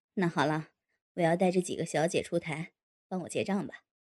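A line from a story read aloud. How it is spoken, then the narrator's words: Laughing. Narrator (Chinese): 天少笑道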